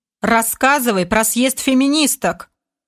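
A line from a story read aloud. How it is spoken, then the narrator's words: Stern commander's demand. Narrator (Russian): Суровым тоном потребовал командор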